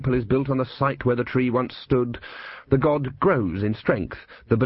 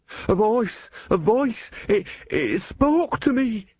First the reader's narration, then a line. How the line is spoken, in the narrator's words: he wailed